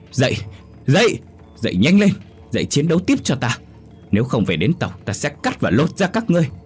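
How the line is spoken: Panicked loud shout. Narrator (Vietnamese): Tên cầm đầu hoang mang hét lớn

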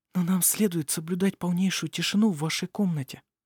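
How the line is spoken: Whispered. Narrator (Russian): прошептала Никола

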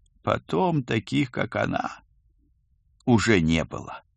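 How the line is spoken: Sad ghost. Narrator (Russian): печально подытожил призрак

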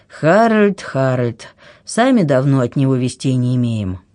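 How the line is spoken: Sighing king speaks. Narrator (Russian): Конунг вздохнул и говорит

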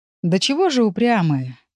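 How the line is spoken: Admiring sigh. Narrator (Russian): с некоторым даже восхищением вздохнул Урс

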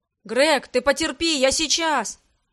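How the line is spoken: Shout. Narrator (Russian): выкрикнул Арман

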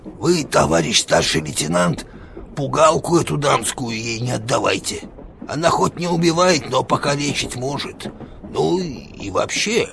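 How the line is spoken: Quiet, stung soldier. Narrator (Russian): Солдата это, видимо, задело, и он тихо, но так, чтобы она слышала, сказал

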